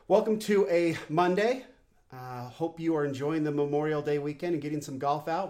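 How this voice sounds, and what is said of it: Voice affected by a cold. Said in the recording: “apologize for my voice. I am fighting a little bit of a cold”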